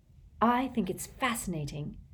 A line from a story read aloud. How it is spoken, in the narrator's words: said Hermione earnestly